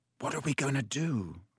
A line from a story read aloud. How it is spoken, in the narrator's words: said Ron quietly in Harry's ear